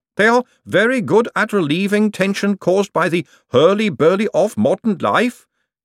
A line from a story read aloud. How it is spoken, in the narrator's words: Gladys intoned